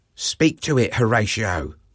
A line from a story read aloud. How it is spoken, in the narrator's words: Marcellus murmured quietly